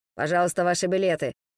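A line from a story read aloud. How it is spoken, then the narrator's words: Grumbled mutter. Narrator (Russian): буркнул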